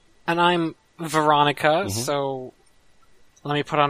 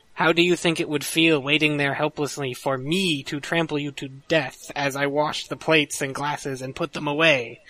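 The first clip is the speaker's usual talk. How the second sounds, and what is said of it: Put-on girl's voice. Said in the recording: “put on my girl voice”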